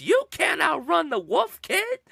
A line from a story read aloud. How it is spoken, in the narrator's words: he just screams